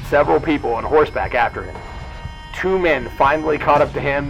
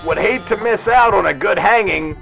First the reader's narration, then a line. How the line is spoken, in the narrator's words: One of the mob members, the local sheriff, yelled